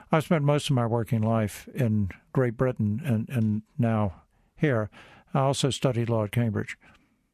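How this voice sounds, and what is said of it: Slight American accent. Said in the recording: “I may have a bit of an American accent”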